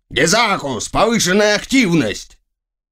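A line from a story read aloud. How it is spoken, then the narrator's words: Shouted. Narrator (Russian): он крикнул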